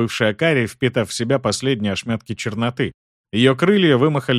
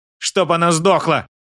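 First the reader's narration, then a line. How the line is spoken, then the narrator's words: Pained shout. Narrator (Russian): выкрикнула Арчана, согнувшись от боли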